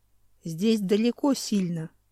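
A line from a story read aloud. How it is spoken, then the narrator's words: Calm reply. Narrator (Russian): спокойно ответил Хью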